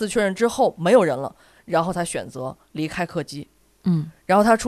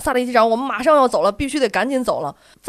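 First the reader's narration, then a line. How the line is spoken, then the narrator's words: Flight attendants calling out. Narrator (Chinese): 两位空姐在喊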